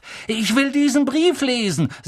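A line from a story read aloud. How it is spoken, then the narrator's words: Said loudly. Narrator (German): sagte laut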